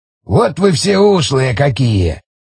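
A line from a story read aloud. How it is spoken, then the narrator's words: Skeptical grunt. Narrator (Russian): Снова скептически хмыкнул Шестаков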